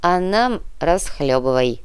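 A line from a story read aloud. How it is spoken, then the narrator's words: Grumbling. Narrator (Russian): проворчал Никита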